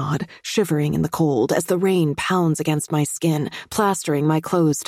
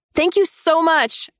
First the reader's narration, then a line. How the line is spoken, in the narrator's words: I shout back